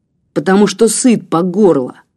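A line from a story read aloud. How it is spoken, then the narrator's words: Spat angrily. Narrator (Russian): злобно выплюнул он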